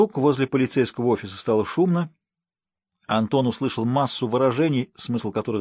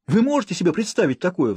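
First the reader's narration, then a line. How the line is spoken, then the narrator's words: Agitated rapid chatter. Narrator (Russian): взволнованно тараторил офицер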